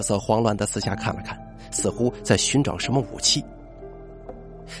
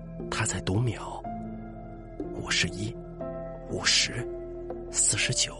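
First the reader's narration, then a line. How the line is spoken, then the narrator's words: Hushed voice. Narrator (Chinese): 作家一边压低声音，一边听着说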